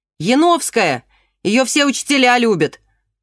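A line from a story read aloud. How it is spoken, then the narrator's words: Shouting. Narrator (Russian): закричал с Камчатки Просвирин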